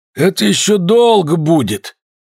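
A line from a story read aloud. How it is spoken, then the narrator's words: Sudden hoarse voice, very close. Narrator (Russian): сказал вдруг хриплый голос так близко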